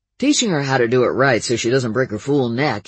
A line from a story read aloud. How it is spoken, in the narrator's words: he growled